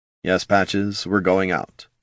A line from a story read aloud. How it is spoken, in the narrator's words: Jin murmured